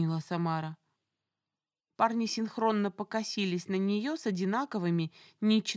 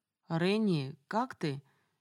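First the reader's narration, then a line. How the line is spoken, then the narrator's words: Unexpectedly hoarse voice. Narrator (Russian): неожиданно хриплым голосом Мариус обратился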